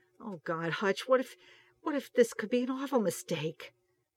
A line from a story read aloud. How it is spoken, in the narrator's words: Starsky gasped a little